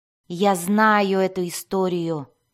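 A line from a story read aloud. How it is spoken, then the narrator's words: Grumbling. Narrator (Russian): проворчал Мазой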